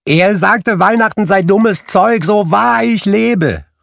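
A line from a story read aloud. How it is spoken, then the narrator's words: Called out. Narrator (German): rief Scrooges Neffe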